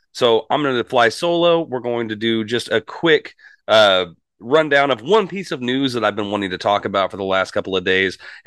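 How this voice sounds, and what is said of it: Unwell, off-sounding voice. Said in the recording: “if you can tell by my voice, I'm not exactly 100% ... I don't normally sound like this.”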